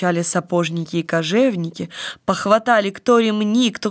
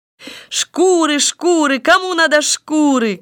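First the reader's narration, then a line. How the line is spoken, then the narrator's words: Shouting again. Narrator (Russian): кричал он опять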